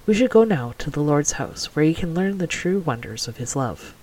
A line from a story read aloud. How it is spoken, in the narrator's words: her mother shushed her gently and murmured